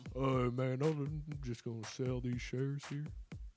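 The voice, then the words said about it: Imitates another person's voice. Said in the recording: “your Peyton Manning impression? ... my Peyton Manning impression. That's fucking awful. That's pretty solid, I think. ... I just talked like an idiot.”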